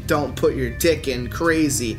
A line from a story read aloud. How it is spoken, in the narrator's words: she's screaming